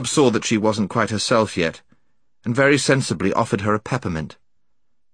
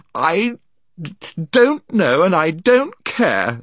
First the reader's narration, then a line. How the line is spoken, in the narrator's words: sobbed Jill